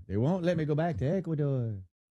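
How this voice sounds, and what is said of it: Put-on Ecuadorian accent, sounds Italian. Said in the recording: “That's your accent? ... Pretty sure it's not connected to Italy in any way, because you're sounding like you're trying ... it sounds like you're doing an Ecuadorian pizzeria.”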